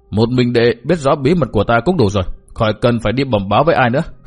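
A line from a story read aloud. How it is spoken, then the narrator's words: Thin, cold smile. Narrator (Vietnamese): Cát Đạt Tố cười nhạt nói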